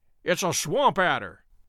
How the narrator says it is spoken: cried Holmes

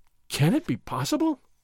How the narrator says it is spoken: Don Diego gasped

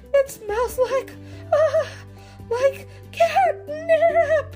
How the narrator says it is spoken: cries out

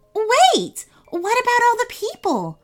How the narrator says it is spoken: Nicole shouted out

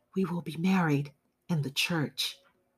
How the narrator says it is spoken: He spoke softly

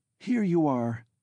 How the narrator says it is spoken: began, faltering with joy

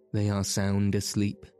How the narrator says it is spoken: he said

